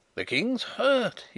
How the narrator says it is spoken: he cried

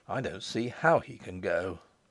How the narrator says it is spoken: I said sullenly

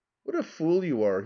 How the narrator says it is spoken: he said with a slight laugh

